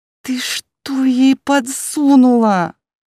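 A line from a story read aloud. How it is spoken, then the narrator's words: Hysterical hiss. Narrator (Russian): С истеричными нотками в голосе зашипела Мелисса на блондинку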